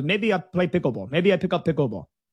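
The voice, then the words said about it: Poor imitation of Russian accent. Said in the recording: “my bad imitation of a Russian accent.”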